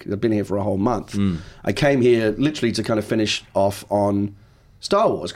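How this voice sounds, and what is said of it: Mixed English-American accent. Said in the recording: “my accent's kind of gone all over the shop ... it's kind of Australian ... I'm originally from the East End, and I used to sound like someone from Albert Square, and then I moved to America, and I picked up this weird accent”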